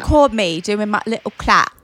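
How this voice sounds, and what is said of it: Put-on Essex British accent. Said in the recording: “You're like trying to sound like Essex. ... yeah, you're like really Essex.”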